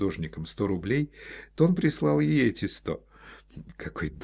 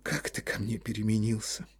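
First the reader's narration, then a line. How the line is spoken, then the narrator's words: Sigh. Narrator (Russian): вздохнула Ольга Ивановна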